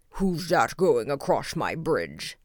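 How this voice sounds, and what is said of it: Great loud troll voice, shouting. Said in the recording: “shouted the troll in his great loud voice”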